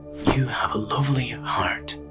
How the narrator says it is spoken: the old man mutter through the door

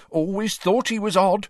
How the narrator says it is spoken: she told the villagers after her fourth sherry

